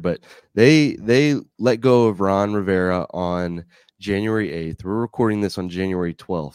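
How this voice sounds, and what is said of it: Sick, under-the-weather voice. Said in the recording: “you can probably hear it in my voice. I'm I'm under the weather”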